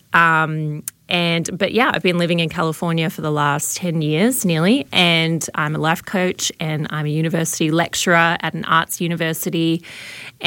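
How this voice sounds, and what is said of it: Mild Australian accent. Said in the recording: “my probably watered down accent, I am from Melbourne, Australia”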